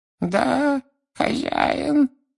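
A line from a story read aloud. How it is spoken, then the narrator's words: Moaning. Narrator (Russian): простонал Хвост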